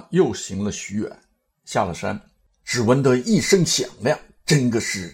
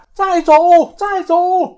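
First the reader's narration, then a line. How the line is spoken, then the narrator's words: Monkey calling loudly. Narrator (Chinese): 又听得那猴高叫道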